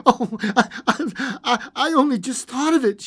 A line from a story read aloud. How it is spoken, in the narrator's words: she said hysterically